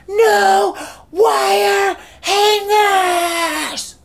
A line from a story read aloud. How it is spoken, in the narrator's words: she screams